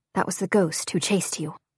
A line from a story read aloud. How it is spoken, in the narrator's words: whispers